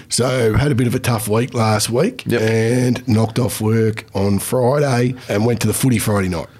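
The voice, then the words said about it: Voice strained, not its usual self. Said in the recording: “I had a pretty big weekend, as you can probably hear in my voice, listeners. Voice is not what it used to be.”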